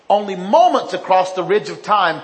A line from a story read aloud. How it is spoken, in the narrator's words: Paragon shouted